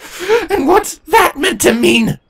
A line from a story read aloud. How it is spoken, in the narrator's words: Twilight suddenly shouted